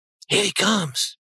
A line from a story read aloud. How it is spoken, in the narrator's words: she whispered